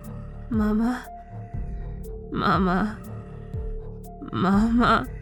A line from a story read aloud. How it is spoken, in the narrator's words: mumbled